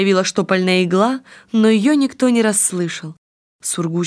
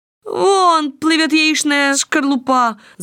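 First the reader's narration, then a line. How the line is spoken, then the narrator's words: Boys shouting. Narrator (Russian): закричали мальчишки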